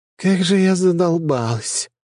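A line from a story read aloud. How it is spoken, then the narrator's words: Groaning. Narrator (Russian): простонала Криевен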